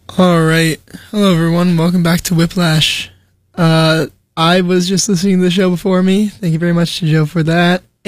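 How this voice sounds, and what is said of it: Slightly strained, ill-sounding voice. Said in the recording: “my voice is a little bit messed up right now. I am recovering from an unfortunate illness”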